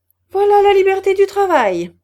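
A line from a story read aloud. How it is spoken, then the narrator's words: Exclaimed. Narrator (French): s'écria M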